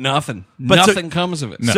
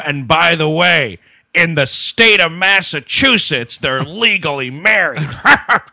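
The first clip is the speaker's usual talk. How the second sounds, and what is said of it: Imitates another person's voice. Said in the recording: “It was a really bad Exhibit impression... I was making Exhibit sound like Boss Tweed”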